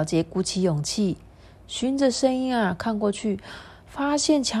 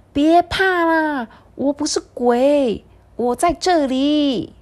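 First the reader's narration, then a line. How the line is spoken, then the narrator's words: Loud shout. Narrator (Chinese): 那个声音大叫说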